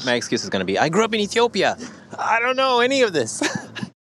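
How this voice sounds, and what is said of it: Slight American accent. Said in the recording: “I hear a bit of an American accent.”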